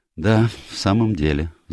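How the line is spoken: Sigh. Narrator (Russian): вздохнул я

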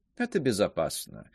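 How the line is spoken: Calm reply. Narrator (Russian): спокойно отвечал Лебигар

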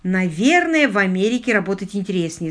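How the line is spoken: Plain. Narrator (Russian): сказал лорд Питер

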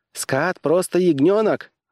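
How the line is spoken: Exclaimed. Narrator (Russian): воскликнул Пирати

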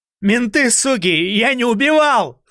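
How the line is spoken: Yelling. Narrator (Russian): заорал Токарев

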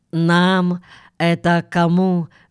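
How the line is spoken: Plain. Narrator (Russian): спросил Гэму

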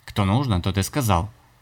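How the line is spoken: Offended boy. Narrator (Russian): обиженным тоном молвил мальчик

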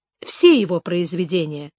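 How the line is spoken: Calm answer. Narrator (Russian): спокойно ответила

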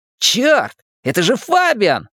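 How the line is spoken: Exclaiming. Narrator (Russian): воскликнул Ричи

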